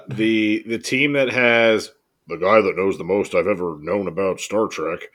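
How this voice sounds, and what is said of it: Imitates another person's voice. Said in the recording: “that was my Brian Nash impression ... Oh, that sucked.”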